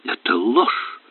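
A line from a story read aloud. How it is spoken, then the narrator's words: Exclamation. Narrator (Russian): воскликнула она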